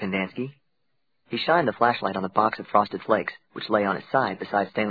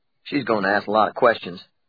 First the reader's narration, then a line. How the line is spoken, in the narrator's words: said Mr